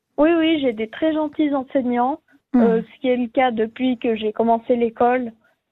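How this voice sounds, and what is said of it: Swiss French accent from Valais. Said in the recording (French): “j'ai de la chance en Valais, comme vous avez peut-être reconnu l'accent.”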